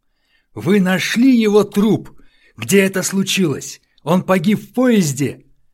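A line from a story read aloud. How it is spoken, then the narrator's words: Shout. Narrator (Russian): он крикнул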